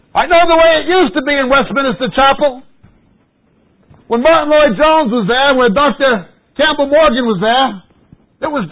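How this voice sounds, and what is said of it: American accent. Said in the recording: “You hear this accent? ... Why is there a Yank up here?”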